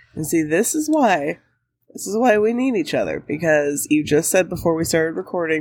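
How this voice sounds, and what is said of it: Sick-sounding voice. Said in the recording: “sick voice directly in your ear holes... sorry about my voice.”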